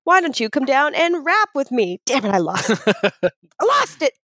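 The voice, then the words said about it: Loud yelling voice. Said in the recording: “I'm yelling a lot”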